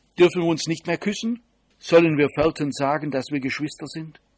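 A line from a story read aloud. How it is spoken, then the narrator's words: Hearty laughter. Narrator (German): Tanja lachte herzhaft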